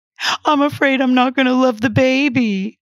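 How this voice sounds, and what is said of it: Fake sobbing with hiccups. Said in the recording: “through fake sobs and hiccups, she gave her best impersonation.”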